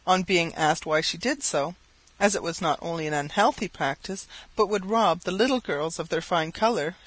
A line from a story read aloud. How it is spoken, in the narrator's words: she exclaimed